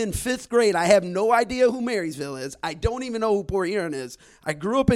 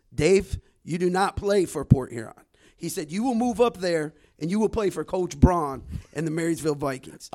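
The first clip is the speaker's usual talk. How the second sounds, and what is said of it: Put-on Arab American accent. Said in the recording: “I'm going to use my best Arab American accent here”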